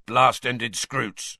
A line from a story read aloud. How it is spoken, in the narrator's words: grunted Hagrid